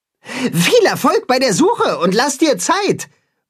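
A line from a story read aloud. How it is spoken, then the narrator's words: Calling after. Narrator (German): ruft Timme ihm nach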